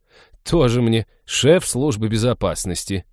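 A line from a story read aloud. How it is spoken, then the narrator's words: Contemptuous snort. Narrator (Russian): презрительно фыркнула она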